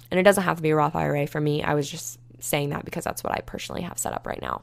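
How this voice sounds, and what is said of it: Hoarse, dry-throated voice. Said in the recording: “My throat is literally so dry right now, so I'm sorry if it sounded super hoarse.”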